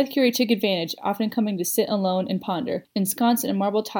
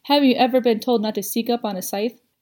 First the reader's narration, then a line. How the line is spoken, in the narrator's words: Faraday laughed warmly